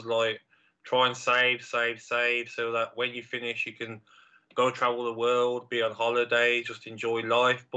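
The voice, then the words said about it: Brummie accent. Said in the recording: “is the Brummie accent the right accent for TV or radio?”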